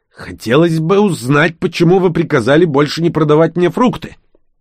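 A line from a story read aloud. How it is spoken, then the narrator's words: Hissed, barely restrained anger. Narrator (Russian): Торговец, едва сдерживая злость, прошипел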